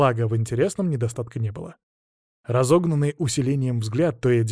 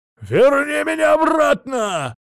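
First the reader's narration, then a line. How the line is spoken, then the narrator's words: Desperate muffled yell. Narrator (Russian): сразу же заорал он, отчаянно резонируя опущенным забралом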